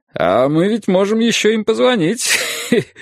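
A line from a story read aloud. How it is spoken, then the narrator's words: Laughing. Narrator (Russian): сказал Юрий, захохотав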